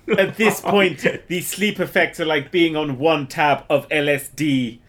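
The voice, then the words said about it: Put-on mixed foreign accent. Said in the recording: “What accent are you trying to give the commentator of the Big Brother house there? ... This is my Japanese accent. ... I kind of veered between like German and Jamaican and Indian there.”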